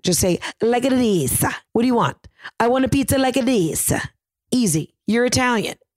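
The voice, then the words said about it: Put-on Italian accent. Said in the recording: “all you have to do an Italian accent is just to talk with your hands and just say things like this. That's how you get into an Italian accent.”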